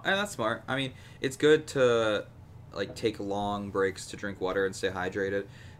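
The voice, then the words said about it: Slightly raspy, strained voice. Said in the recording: “Both of our voices were so dead the next day. And mine still kind of is. It's still a little raspy. A little grudge-like.”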